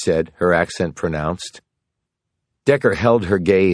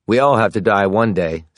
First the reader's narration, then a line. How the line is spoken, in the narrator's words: said Decker